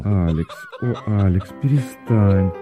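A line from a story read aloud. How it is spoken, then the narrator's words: Muffled tender chattering. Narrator (Russian): два голоса глухо и нежно затраторили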